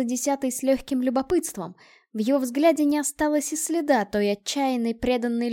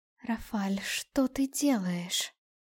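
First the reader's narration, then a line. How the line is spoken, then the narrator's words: Quiet question. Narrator (Russian): тихо спросила десятая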